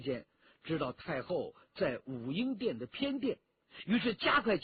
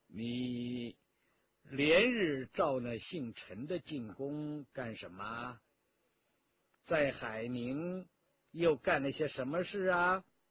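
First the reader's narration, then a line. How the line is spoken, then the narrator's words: Cold questioning. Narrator (Chinese): 太后冷冷地问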